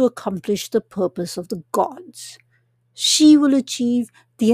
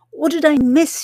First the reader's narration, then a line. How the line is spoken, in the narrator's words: says, panting